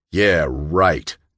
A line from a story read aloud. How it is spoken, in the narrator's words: John growled